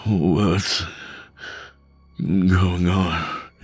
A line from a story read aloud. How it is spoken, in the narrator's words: He slurred